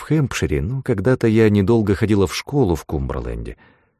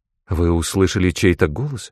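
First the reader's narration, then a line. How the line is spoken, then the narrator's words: Frightened question. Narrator (Russian): спросила она испуганно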